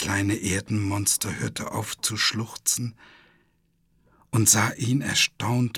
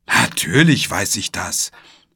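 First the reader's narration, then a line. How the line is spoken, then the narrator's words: Indignant call. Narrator (German): rief Gobo empört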